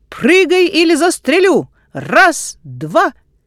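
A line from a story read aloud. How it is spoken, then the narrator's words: Shouted. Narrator (Russian): отец крикнул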